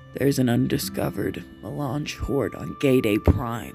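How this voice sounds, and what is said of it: Lowered voice. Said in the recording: “Leto continued in a lower voice.”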